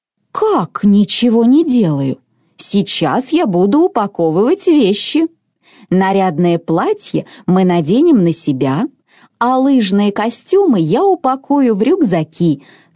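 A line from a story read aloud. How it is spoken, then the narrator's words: Calm reply. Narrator (Russian): спокойно ответила мама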